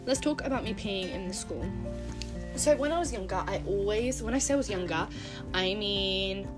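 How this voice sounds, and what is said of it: British accent. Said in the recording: “I'm from Britain. I don't know if you can tell from my voice”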